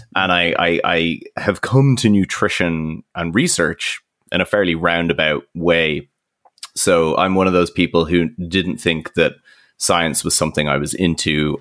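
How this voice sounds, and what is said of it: Irish accent. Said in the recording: “as people may tell from the accent, I'm not from the UK originally, Irish originally”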